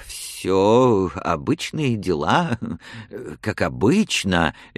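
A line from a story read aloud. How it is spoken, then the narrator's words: Babbling, trembling voice. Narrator (Russian): лепетал канцлер заметно дрожащим голосом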